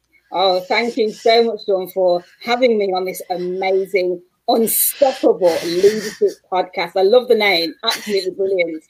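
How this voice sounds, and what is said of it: Manchester English accent. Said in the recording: “as you can tell by my accent, I'm from Manchester, England”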